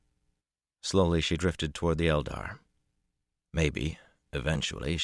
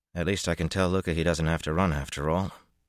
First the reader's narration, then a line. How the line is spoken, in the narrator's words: Matt said wearily